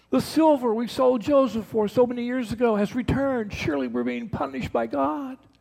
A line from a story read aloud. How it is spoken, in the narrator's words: they cried out